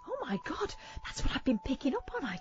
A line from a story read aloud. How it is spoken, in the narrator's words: I gasped